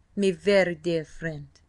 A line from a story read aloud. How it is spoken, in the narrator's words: he said in a rich brogue